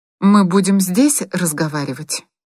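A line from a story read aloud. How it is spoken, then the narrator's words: Even-voiced question. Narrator (Russian): спросила она ровным голосом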